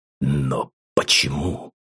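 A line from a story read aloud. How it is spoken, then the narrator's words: Confused mumble. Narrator (Russian): пробормотал растерянно Ургас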